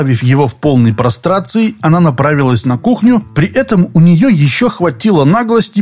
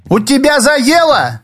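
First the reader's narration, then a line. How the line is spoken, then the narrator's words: Shouted. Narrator (Russian): также крикнула она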